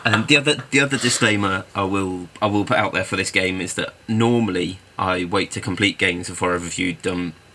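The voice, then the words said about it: Congested, slightly odd-sounding voice. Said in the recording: “I've got a bit of a cold starting, so if I sound a bit weird, that's probably why ... You sound like you've picked up a northern accent thanks to your cold”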